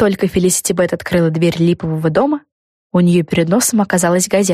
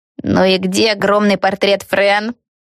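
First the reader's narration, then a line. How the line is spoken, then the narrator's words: Indignant question. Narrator (Russian): возмущенно спросила Криспи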